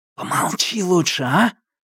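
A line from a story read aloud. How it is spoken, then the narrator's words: Hiss. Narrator (Russian): прошипел он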